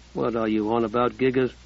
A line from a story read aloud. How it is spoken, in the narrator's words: Josh murmured